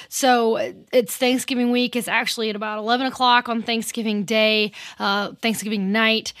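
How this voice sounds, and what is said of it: Strained, fading voice. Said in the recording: “I'm losing my voice. So forgive me if my voice goes out a little bit ... try to give my voice a break”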